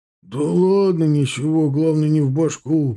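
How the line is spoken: Cossack's deep bass. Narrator (Russian): пробасил казак

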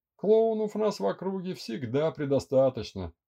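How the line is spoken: Laughing. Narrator (Russian): рассмеялся Андрей

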